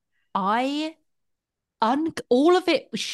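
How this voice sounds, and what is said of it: Usual voice. Nothing is said of it.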